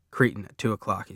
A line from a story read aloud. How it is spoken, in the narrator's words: he says